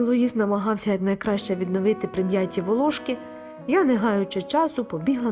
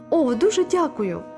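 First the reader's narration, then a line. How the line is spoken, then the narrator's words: Tearful exclamation. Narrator (Ukrainian): витираючи сльози, вигукнула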